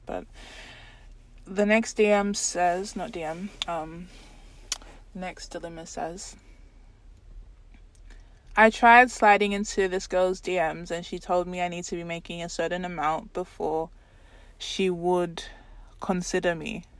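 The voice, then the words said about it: Sick, congested-sounding voice. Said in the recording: “I do feel like I'm getting sick. That's why my voice sounds really, like, weird, and I keep sniffling”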